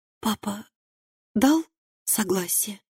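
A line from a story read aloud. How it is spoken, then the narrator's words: Whispered question, young woman. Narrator (Russian): шепотом спросила девушка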